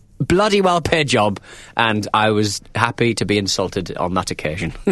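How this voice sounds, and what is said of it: Northern English accent. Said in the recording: “got a stupid sounding accent ... northern accent that makes it so sound so friendly ... my accent”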